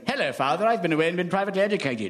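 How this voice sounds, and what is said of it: Mock posh public-school accent. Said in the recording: “they'll all come back with stupid accents”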